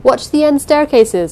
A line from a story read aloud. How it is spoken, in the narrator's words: Jameson was shouting